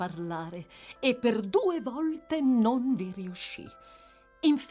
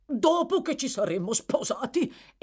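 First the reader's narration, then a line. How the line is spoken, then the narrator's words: Exclaimed. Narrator (Italian): esclamò il signor Bumble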